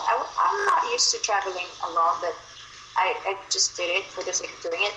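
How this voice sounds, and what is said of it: Filipino Tagalog accent, sweet and soothing. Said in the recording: “you have this Tagalog accent ... I like that Tagalog accent. It sounds very sweet and romantic ... it sounds very soothing and very romantic”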